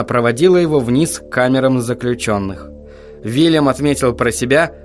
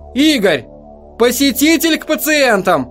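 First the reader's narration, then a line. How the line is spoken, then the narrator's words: Shout. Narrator (Russian): Она ... крикнула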